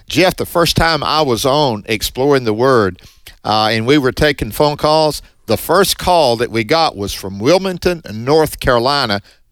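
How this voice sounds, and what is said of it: Strong Southern US accent. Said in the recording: “This southern boy, northeast Mississippi, with this strong southern accent.”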